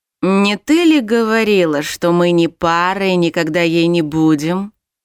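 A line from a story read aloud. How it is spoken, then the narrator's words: Insinuating demon's voice. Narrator (Russian): Вкрадчиво начал демон, обращаясь к своей пассии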